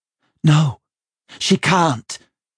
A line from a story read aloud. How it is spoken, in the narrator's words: Rachel said hotly